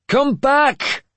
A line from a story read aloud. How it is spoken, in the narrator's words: Finan shouted